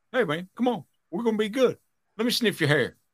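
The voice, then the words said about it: Imitates another person's voice. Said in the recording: “That's my best Joe Biden impression ... That's not a good Joe Biden impression ... Joe Biden doesn't have a southern accent”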